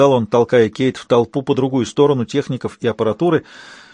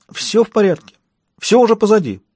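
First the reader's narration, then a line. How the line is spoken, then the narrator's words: Hysterical, wound-up tone. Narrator (Russian): проговорил он истерично взвинченным тоном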